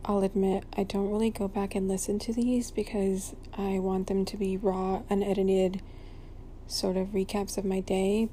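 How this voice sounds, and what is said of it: Sleepy, low bedroom voice. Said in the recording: “you guys have been getting my sleepy bedroom voice ... I sound boring because they're just sleepy sort of recaps”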